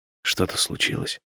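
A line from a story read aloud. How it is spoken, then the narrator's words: Quiet question. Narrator (Russian): спрашиваю тихо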